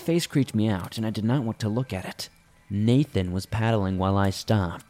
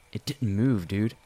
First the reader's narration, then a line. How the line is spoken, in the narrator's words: while half chuckling